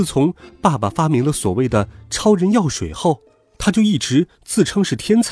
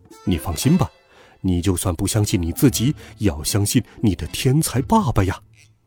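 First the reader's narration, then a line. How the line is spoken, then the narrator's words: Soft, muffled from pocket. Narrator (Chinese): 爸爸……在我的口袋里面轻声说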